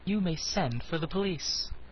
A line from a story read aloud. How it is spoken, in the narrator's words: said the girl coolly